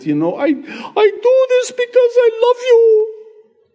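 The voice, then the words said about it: High-pitched voice with thick accent. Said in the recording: “She'd have that high pitch, you know, thick accent.”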